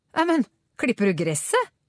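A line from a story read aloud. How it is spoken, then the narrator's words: Surprised. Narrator (Norwegian): sa han overrasket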